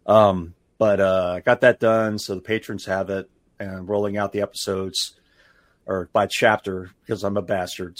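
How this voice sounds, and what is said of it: Rough, worn-out voice. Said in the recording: “my voice is probably pretty rough”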